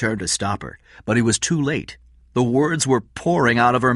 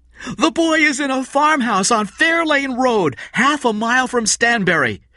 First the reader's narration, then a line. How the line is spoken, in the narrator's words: Kathy suddenly shouted into the open microphone